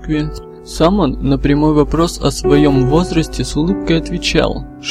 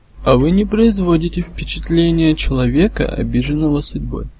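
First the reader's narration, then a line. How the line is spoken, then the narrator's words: Calm. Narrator (Russian): спокойно ответил часовщик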